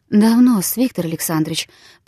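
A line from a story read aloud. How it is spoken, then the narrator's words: Barely audible. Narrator (Russian): проговорила она, наконец, едва слышным голосом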